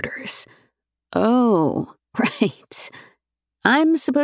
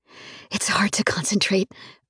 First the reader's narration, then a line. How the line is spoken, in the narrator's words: I murmur